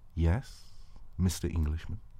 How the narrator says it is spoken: you answered so quietly

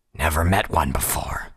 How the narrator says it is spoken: Sharpfangs growled softly

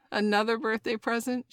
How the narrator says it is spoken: She laughed

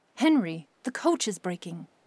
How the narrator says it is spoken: cried out

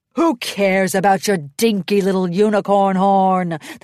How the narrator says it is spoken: the Storm King bellowed

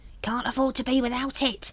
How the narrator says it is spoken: he hissed

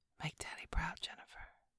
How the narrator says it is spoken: he whispers

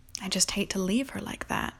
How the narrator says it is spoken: Connie said earnestly

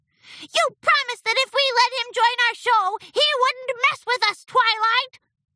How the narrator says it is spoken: shouted Minuet

